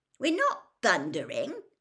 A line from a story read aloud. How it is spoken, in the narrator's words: said Ron irritably